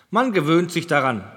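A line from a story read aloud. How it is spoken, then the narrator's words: Laughing. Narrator (German): lachte Thury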